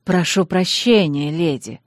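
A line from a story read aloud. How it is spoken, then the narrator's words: Whisper with smile. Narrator (Russian): шепнул он с широкой улыбкой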